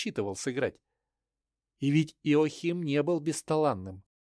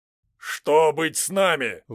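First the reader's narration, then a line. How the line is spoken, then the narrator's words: Shout. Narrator (Russian): выкрикнул Гумберт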